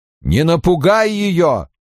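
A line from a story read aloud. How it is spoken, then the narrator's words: Shouted. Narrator (Russian): крикнул Инктор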